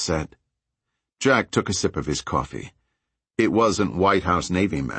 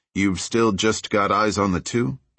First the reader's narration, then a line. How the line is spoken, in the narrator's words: Jack asked